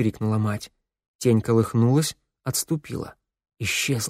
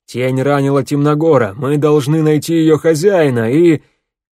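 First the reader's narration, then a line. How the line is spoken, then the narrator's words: Yelling. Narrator (Russian): Змеевик заорал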